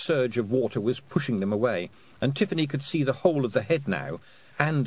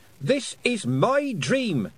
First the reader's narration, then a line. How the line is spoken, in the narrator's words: she shouted at the sky